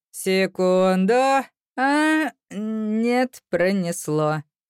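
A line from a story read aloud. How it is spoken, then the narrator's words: Snorting. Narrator (Russian): хмыкнул он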